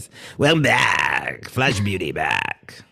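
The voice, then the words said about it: Top 40 radio DJ voice. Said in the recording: “my top 40 radio voice ... your Casey Kasem Bigfooter voice ... More like some AM station”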